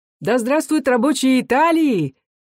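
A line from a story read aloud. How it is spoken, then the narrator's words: Voices shouting. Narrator (Russian): кричали в другой раз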